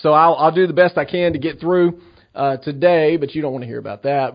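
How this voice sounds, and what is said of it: Strained voice cutting in and out. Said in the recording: “my voice is kind of going in and out ... allergies”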